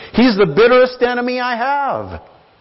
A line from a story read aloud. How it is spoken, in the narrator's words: exclaimed the pastor